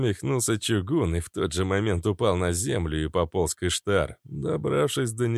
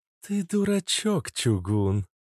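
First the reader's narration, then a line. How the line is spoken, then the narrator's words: Tender whisper. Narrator (Russian): ласково прошептала Иштар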